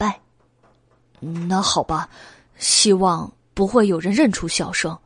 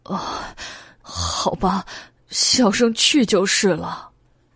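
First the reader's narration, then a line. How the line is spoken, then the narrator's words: Crying. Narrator (Chinese): 袁耀哭道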